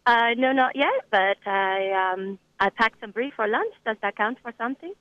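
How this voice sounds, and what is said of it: French accent. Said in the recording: “recognize the French accent. That's very good.”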